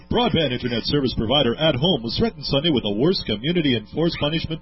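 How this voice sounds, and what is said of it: Imitates a news announcer's voice. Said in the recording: “my really good impersonation of the announcer”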